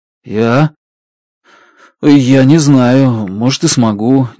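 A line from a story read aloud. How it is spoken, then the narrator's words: Uncertain. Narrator (Russian): неуверенно говорю я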